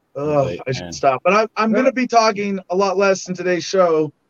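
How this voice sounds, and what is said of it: Strained voice. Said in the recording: “my voice is strained today”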